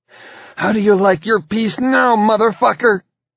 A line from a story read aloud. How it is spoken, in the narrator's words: she cried